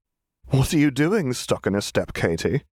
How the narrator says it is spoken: She laughed

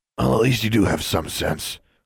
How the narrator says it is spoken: the older custodian grumbled

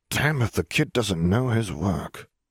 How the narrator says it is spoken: the man muttered under his breath still grinning wide

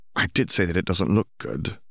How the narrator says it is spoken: Hermione muttered

